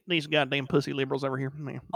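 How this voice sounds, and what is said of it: Put-on Georgia accent. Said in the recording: “do the Georgia boy accent”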